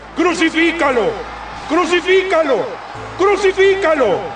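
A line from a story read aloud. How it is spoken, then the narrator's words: Crowd shouting. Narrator (Spanish): ellos gritaron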